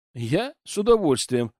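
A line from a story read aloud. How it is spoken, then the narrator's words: Laughing. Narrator (Russian): рассмеялся я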